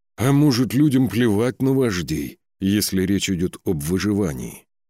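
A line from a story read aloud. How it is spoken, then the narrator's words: Sighing. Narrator (Russian): Вздохнул это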